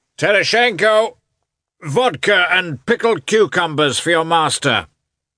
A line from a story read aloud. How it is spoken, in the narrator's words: he shouted, evidently enjoying the sound of his own voice